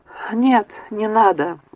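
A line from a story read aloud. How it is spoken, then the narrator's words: Weary. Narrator (Russian): устало произнес Оливер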